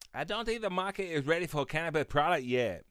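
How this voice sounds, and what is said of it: Mocking stereotyped put-on accent. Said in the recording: “to do my racist voice”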